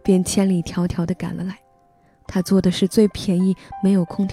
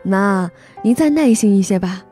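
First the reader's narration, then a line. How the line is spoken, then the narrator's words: Wry bitter smile. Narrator (Chinese): 我苦笑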